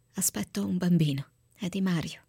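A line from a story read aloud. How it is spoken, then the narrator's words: Whispered reply. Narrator (Italian): Ilenia rispose con un sussurro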